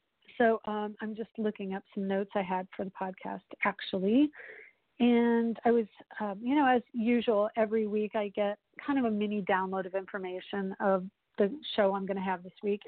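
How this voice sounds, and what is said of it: Slightly hoarse voice. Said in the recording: “my voice sounds a little hoarse, so I apologize if that sounds a little funky today”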